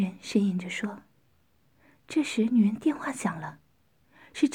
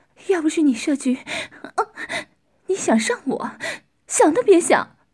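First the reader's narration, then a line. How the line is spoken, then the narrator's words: Man's leering laugh. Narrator (Chinese): 男人淫笑着说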